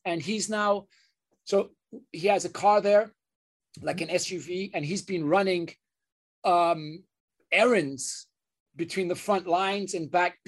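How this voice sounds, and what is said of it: Emotional, choked-up voice. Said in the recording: “I get emotional talking about this”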